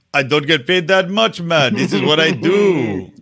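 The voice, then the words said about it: Attempted Barbadian accent. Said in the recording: “I don't know if that's a Barbadian accent”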